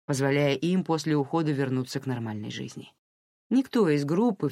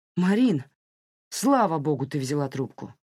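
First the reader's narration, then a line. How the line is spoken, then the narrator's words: Exclamation. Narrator (Russian): воскликнул Саймон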